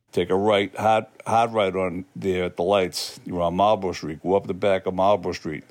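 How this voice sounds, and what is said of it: Boston accent. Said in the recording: “the quintessential Boston accent”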